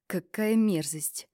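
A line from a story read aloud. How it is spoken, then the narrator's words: Pained sigh. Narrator (Russian): Вздохнул он страдальчески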